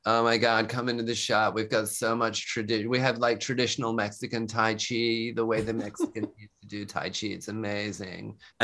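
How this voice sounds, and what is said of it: Impersonated trendy shop girl voice. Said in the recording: “I was starting to just impersonate the characters in the shops. And one of them was a girl”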